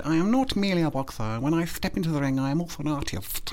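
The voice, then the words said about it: Chris Eubank impression. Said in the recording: “a Chris Eubank impression ... my Chris Eubank”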